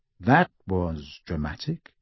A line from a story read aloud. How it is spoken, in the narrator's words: said Harry coolly